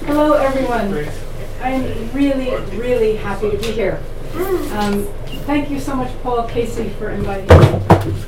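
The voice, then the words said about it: New Jersey accent. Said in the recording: “I'm from New Jersey, as you can hear in my voice.”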